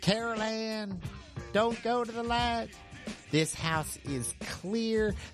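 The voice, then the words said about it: Imitates another person's voice. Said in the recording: “Impersonation of Jim Carrey's "The House is Clear."”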